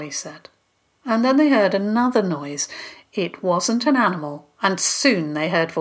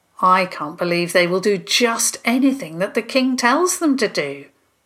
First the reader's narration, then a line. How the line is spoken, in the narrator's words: Theo said grimly